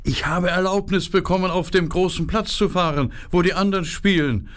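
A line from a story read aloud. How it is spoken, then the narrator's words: Shouting into ears. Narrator (German): Er schrie Gerda in die Ohren hinein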